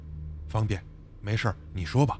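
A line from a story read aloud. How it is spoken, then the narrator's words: Low voice. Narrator (Chinese): 低声说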